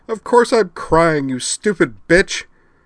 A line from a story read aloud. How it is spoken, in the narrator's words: bawled Rena Dragonar, burying her tear-streaked face in the bedclothes on Amanda's chest